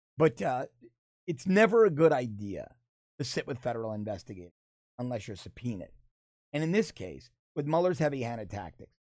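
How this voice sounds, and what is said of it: Unwell, strained voice. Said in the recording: “my just terrible this week. You could hear it in my voice ... apologies for the voice”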